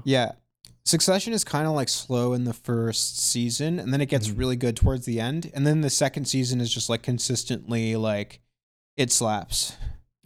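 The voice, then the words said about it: Strained, worn-out voice. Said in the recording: “fuck, my voice, like, oh my god. I've been singing a little bit ... now my voice is just totally fucked.”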